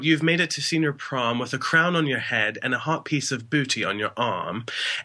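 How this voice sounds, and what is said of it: Put-on British accent. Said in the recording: “a really nice British accent”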